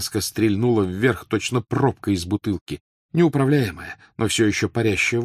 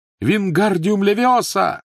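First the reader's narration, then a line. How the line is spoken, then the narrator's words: Desperate shout. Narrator (Russian): Гарри в отчаянии крикнул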